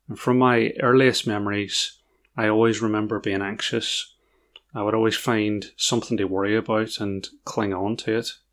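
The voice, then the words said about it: Northern Irish accent. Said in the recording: “In case the accent isn't obvious, I grew up in Northern Ireland.”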